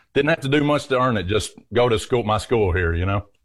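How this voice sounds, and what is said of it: Southern US accent. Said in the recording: “clearly a Southern gentleman. You have a beautiful accent.”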